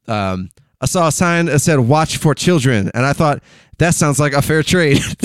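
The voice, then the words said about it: Imitates another person's voice. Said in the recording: “There's my Hedberg impersonation.”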